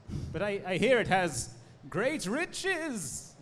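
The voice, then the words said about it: Excited, enthusiastic voice. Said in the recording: “I say in my exciting voice.”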